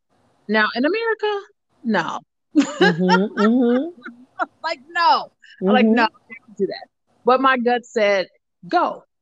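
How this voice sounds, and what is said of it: American accent. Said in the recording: “somebody in the background heard my accent. They were like, wait, wait, wait, this girl's American?”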